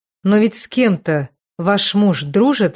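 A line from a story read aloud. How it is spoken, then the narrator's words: Plain question. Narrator (Russian): спросила Вера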